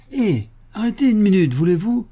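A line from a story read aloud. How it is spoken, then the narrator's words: Cheerful call. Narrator (French): lance-t-il gaiement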